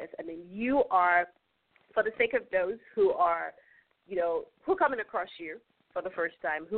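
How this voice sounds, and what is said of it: African accent. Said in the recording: “I'm African, so you know I do have an accent ... A beautiful one.”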